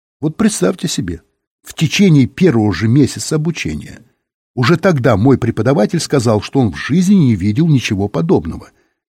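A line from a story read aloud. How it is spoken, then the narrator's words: Sad laugh, then speaking. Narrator (Russian): Незнакомец так грустно рассмеялся и сказал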